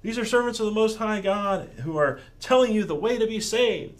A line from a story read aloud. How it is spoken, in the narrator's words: this girl who's shouting